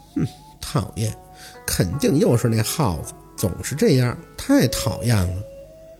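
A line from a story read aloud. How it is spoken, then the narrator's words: Muttering. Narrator (Chinese): 宝四 嘟囔着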